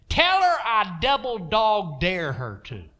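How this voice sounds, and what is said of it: Texas drawl imitating Kenneth Hagin. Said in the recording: “this Texas drawl accent”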